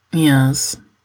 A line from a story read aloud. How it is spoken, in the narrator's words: Gino says calmly